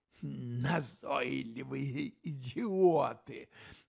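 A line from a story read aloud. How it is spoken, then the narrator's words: Harsh rasping whisper. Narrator (Russian): В его резком хрипящем шепоте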